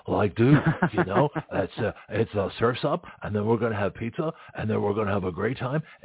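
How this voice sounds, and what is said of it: Californian surfer voice. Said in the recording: “you got to, like, talk surfer ... I can do accents, too.”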